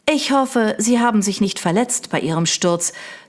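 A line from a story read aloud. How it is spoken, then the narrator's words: Plain. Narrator (German): sagte sie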